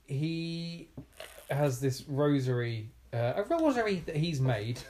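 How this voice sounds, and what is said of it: Put-on Irish accent. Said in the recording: “Why do you have to do it in an... Irish, there we go, I got there in the end. Accent.”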